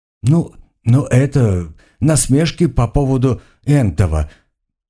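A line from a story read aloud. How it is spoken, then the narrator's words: Cautious mumble, calming down. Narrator (Russian): осторожно промямлил Рабе, немного успокаиваясь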